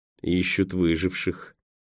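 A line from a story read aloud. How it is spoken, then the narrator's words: Grim. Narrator (Russian): мрачно проговорил Николас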